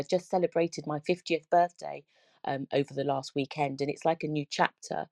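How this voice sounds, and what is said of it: Speaks with a noticeable accent. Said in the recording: “I love the accent”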